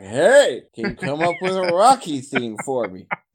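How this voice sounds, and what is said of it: Accurate impression of another person. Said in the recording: “That was a pretty on the nose impersonation.”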